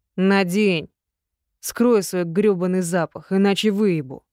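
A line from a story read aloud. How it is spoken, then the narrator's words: Harsh and rough. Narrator (Russian): Слишком жестко и грубо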